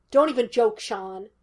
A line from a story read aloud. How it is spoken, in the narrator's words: Gus snapped